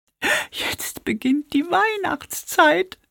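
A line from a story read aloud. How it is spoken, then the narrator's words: Sobbing. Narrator (German): schluchzte Pieps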